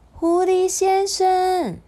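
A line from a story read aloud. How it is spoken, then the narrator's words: Small distant call. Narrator (Chinese): 不知道从哪里传来小小的叫声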